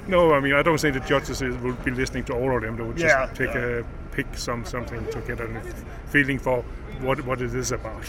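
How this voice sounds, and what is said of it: Danish accent sounding South African. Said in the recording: “You're from South Africa... I'm a Scandinavian from Denmark... the accent could sound like a South African.”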